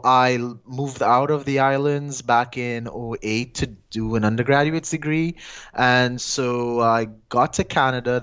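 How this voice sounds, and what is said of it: Trinidadian Caribbean accent. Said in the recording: “I got a bit of an accent, and that's because I'm originally from a small twin Caribbean island called Trinidad and Tobago”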